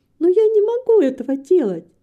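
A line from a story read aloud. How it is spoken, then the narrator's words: Almost laughing. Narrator (Russian): сказала Рита, почти засмеявшись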